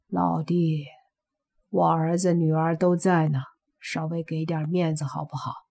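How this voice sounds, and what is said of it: Quiet, hushed voice. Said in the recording (Chinese): “小声说”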